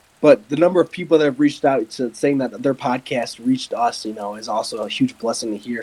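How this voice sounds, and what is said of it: Unusually deep voice. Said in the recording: “my voice isn't normally this deep”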